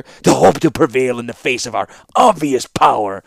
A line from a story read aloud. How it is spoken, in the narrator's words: continued the Kadir, with a contemptuous sneer